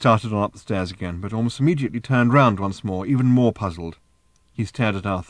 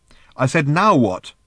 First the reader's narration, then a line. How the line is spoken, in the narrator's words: repeated Ford irritably